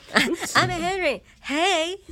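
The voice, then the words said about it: Mocking imitation of another's voice. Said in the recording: “you do that kind of voice? That's really offensive, actually.”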